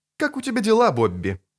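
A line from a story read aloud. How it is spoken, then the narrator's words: Sharp question. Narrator (Russian): резко спросила невестка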